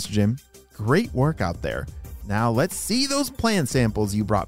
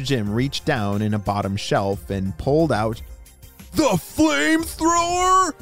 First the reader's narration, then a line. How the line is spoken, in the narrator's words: shouted Jaden